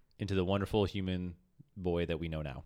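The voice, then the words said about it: Very sarcastic delivery. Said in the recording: “Because I just called you a boy and said it very sarcastically.”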